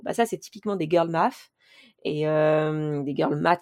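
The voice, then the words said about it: Unconvincing put-on English accent. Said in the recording (French): “j'essaie d'avoir un accent anglais, mais c'est pas crédible”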